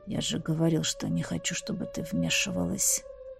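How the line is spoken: Muffled mumble into pillow. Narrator (Russian): Пробормотал он в подушку, из-за чего его голос прозвучал приглушенно

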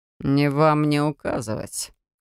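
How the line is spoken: Cold reply. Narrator (Russian): так же холодно отозвался Рамунд

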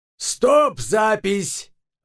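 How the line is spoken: Shouting. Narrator (Russian): заорал режиссер

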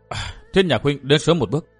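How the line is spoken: Soft sigh, woman. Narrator (Vietnamese): Nàng thở dài khẽ nói

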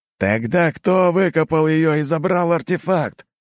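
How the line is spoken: Shouted. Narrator (Russian): выкрикнул командир группы

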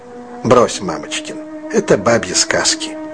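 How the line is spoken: Gentle mocking tone. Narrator (Russian): Травкин насмешливо, но мягко сказал

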